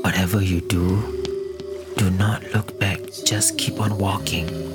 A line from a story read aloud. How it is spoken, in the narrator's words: Jimmy whispered to Raymond